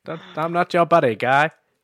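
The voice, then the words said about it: Put-on Canadian accent. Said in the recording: “you were gonna do a Canadian accent, then, weren't you? ... It's just based on South Park.”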